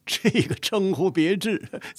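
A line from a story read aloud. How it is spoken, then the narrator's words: Hearty laughter. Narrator (Chinese): 乾隆也是哈哈大笑，说道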